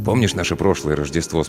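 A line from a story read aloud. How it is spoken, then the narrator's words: Plain. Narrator (Russian): спросил он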